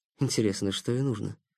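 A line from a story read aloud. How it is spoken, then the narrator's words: Puzzled mutter. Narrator (Russian): пробормотал Никита недоуменно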